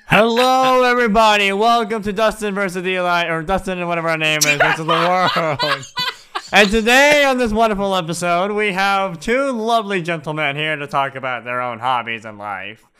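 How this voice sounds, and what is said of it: Exaggerated sports announcer voice. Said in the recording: “silly, like over exaggerative, like sports announcer ... exaggerative intro ... announcer voice”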